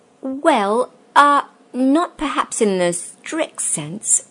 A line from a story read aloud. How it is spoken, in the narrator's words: stammered Uncle Andrew